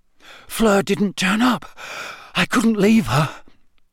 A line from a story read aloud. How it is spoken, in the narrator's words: Harry panted